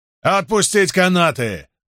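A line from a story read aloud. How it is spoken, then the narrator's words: Roaring command. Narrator (Russian): проревел Фемистокл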